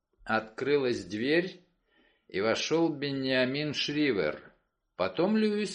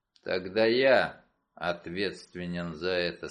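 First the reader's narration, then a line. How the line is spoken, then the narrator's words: Gloomy. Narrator (Russian): сказал мрачно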